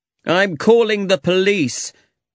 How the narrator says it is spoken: he said angrily

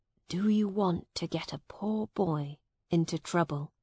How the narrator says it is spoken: Miles whispered to the woman

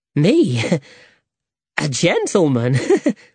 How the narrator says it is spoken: laughed Alejandro

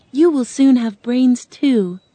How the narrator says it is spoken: Dorothy said kindly

